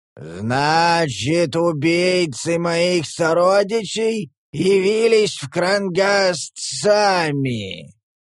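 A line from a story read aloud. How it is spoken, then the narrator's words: Booming ogre voice. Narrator (Russian): прогремел высокий Огр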